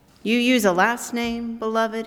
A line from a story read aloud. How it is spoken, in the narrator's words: he asked